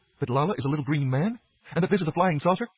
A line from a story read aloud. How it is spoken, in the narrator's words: gasped Maris